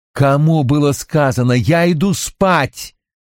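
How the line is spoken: Yelled. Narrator (Russian): заорал Робин

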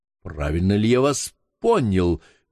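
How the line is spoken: Young man exclaiming. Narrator (Russian): воскликнул молодой араб

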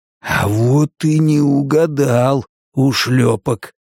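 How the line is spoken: Hissing into ear. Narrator (Russian): прошипел Коб с сильными руками в неповрежденное ухо Гутьерреса

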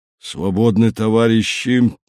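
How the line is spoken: Hoarse wheeze. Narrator (Russian): Краюхин просипел

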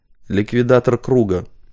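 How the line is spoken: Low male voice from woman. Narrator (Russian): проговорила Вероника низким мужским голосом

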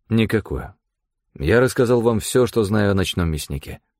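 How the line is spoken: Dry flat tone. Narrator (Russian): сухо произнес я

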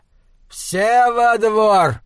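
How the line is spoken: Shouted. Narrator (Russian): кричал он

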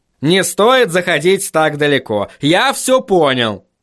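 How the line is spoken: Barked. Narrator (Russian): рявкнул он

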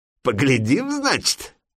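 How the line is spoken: Giggling. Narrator (Russian): Коротышка хихикнул

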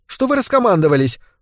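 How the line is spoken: Indignant question. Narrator (Russian): возмущенно спросила Яна

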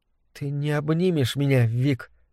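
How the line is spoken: Trembling voice, asking. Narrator (Russian): дрожащим голосом спросила Мэгги

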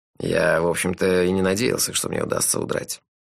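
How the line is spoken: Sigh. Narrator (Russian): вздохнул он

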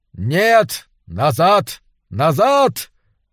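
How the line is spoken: Shouting. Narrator (Russian): закричал

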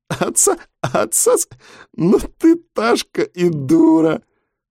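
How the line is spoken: After laughing. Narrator (Russian): Светка отсмеялась

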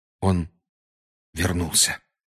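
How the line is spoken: Heavy exhale. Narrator (Russian): тяжко выдохнул Гарри

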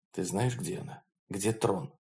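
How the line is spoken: Whisper in ear. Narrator (Russian): Холрейд прошептал на ухо своей спутнице

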